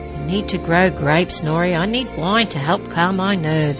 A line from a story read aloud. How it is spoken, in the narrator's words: Merek chuckled